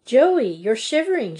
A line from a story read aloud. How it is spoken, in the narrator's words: she cried